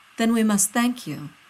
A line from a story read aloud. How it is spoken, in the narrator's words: Taylor says smoothly